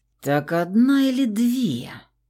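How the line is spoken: Hissing with growing rage. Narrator (Russian): Медленно зверея прошипела я

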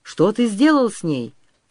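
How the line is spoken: Shouting. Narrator (Russian): закричал Григорий

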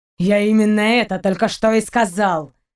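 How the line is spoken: Impatient, through gritted teeth. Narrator (Russian): Процедил сквозь зубы Даллок, теряя терпение

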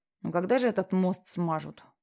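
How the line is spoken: Displeased, through teeth. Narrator (Russian): недовольно процедил

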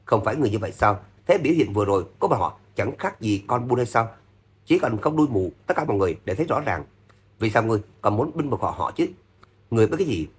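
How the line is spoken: Angry snort. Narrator (Vietnamese): Thượng quan Kinh Yến hừ nhầm tiếng, tức giận

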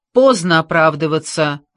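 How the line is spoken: Bark. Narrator (Russian): рявкнул Лин

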